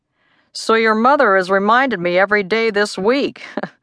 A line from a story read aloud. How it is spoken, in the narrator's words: said with a chuckle